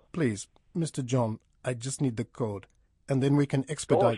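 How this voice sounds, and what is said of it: Foreign accent, likely African. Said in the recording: “Gosh, I love your accent. The way you say code.”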